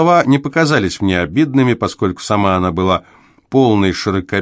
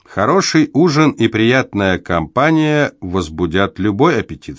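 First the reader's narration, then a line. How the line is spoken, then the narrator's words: Plain. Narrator (Russian): сказал я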